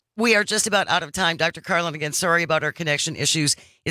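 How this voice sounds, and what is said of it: Wisconsin accent. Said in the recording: “some Wisconsin accent”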